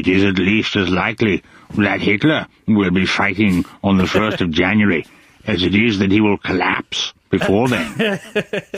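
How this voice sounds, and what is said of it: Churchill impression. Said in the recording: “that's a good Churchill impression ... it's not hard to do a Churchill impression”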